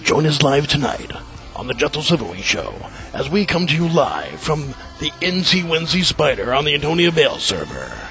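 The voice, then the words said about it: Movie trailer announcer voice. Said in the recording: “my movie announcer voice”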